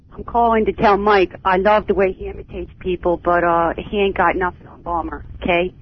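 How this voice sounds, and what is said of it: Strong Baltimore accent. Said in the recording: “That is a truly great Baltimore accent. In fact, you're not faking it either. That is a real Baltimore accent.”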